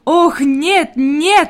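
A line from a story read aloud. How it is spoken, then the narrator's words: Exclaimed. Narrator (Russian): воскликнула Клара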